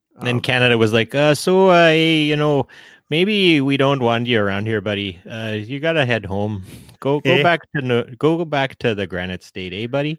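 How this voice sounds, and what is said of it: Bad put-on Canadian accent. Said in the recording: “that's my bad Canadian accent”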